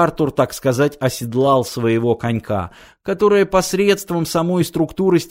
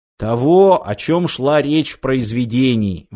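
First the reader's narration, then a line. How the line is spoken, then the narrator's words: Exclamation. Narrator (Russian): воскликнул он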